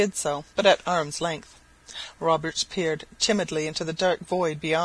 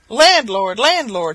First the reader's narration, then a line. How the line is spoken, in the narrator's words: he cried, imitating the voice of the singing-master